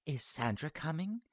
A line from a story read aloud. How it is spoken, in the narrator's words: she asked, quietly enough so that he knew she wasn't trying to make conversation